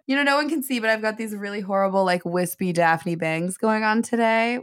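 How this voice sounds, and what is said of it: Speaks with a noticeable accent. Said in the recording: “back with my shit accent.”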